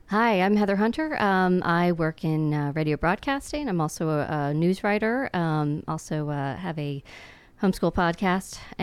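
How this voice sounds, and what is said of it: Calming radio voice. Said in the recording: “you have a very calming radio voice ... Very, very calming”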